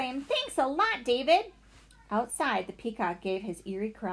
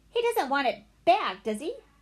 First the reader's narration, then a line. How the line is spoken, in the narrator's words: Benny cried